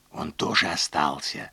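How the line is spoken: Bitter whisper. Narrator (Russian): прошептала она с горечью

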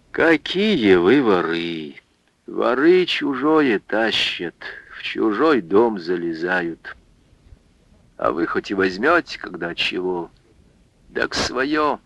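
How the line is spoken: Weary, worn-out woman's voice. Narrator (Russian): Анфиса усталым голосом замученной, заезженной бабы сказала

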